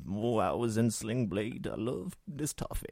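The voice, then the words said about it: Imitates another person's voice. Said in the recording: “my latest impression, Billy Bob Thornton eating some Brazilian nut toffee ... Very good impression.”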